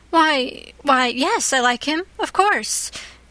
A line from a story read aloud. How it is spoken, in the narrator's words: gasped Anne